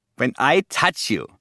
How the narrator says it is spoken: said

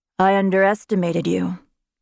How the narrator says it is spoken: said in a rumbling voice

